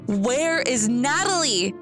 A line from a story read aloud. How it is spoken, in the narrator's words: yelled